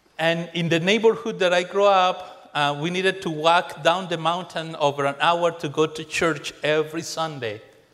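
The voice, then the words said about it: Colombian accent in English. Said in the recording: “I know the accent is kind of German, but it's not. It's Colombian.”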